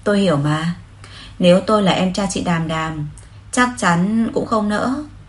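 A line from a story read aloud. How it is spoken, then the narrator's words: Meaningful sigh. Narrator (Vietnamese): Lục Nghiên Kiều thở dài đầy ẩn ý rồi nói với Hứa Lăng Duệ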